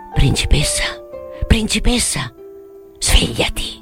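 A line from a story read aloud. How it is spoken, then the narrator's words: Whispered. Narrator (Italian): sussurrò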